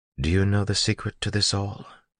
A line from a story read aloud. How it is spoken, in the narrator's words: asked quietly